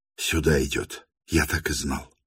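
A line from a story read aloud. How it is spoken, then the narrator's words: Furious whisper. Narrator (Russian): яростно прошептал он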